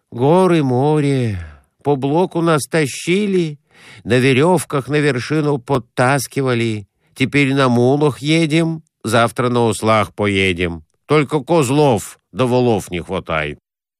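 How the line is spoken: Muttering. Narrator (Russian): Конурин бормотал

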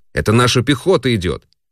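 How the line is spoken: Shouting. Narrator (Russian): один дальнозоркий крикнул

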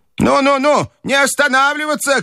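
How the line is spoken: Old woman shouting. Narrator (Russian): кричала бабушка

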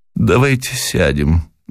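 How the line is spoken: Breathless, weak with passion. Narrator (Russian): выдохнула, слабее от неожиданно захватившей ее страсти

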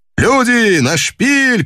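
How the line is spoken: Skipper shouting. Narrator (Russian): крикнул шкипер

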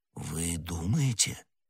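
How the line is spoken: Uncertain. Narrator (Russian): неуверенно произнес Д'Артаньян

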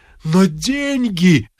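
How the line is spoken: Group groaning. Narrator (Russian): застонали

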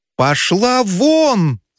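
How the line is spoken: Shouting. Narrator (Russian): закричал Федяшев

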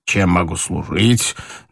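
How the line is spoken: Mocking question. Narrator (Russian): насмешливо спросил доктор

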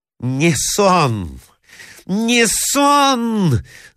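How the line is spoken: Furious shout. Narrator (Russian): закричала в ярости Марья Александровна

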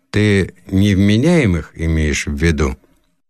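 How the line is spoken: Gloomy question. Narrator (Russian): Отец мрачно спросил

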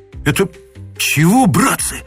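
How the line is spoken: Breathless exhale. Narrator (Russian): выдохнул кто-то

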